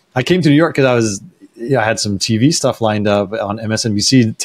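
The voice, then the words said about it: Slightly hoarse, strained voice. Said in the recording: “I'm losing my voice slightly. I hope it doesn't sound too bad for the listeners at home.”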